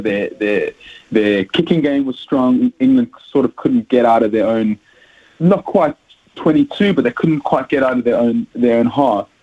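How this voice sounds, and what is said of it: South African accent. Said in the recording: “As you can hear from my accent, I'm South African”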